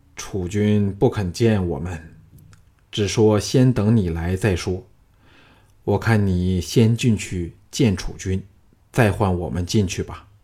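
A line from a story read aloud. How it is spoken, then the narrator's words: Low voice. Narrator (Chinese): 低声说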